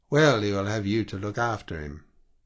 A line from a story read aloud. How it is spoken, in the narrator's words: I said with a little laugh